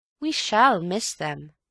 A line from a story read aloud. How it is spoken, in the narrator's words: said Bill sadly